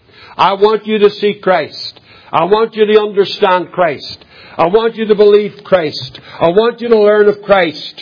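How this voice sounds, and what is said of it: Strange-sounding accent. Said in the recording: “It just happens to come in a strange accent.”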